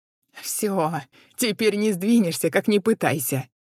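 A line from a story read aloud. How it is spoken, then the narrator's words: Laughing. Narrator (Russian): рассмеялась она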